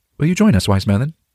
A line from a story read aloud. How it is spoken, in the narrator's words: Galahad asked